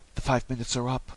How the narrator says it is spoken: she murmured

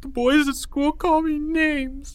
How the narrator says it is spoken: he said through sobs

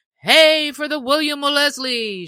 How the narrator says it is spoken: shouted others yet again

